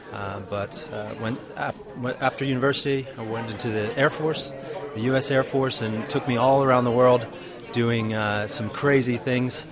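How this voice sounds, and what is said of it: American accent. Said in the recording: “as you'll find out quickly, by my American accent”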